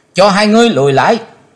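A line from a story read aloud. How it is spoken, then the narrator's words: Loud shout. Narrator (Vietnamese): Chí Tôn hét to lên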